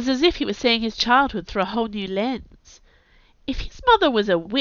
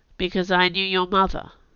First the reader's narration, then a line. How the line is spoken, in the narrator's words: said Elle, her own mouth tightly pressed in